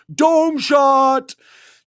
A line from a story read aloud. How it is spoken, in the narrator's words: this dude screamed